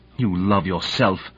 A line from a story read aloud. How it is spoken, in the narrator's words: said Kalinin bitterly